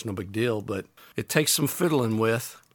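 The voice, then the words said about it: Southern accent slips through. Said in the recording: “There's my Southern accent there.”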